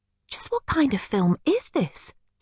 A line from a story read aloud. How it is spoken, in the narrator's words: gasped